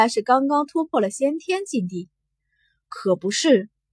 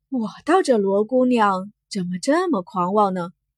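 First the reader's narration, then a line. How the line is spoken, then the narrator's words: Soft sigh. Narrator (Chinese): 有人轻叹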